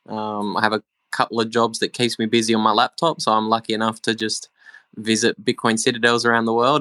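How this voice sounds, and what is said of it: Australian accent. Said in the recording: “I'm very Australian, as the accent probably gives it away.”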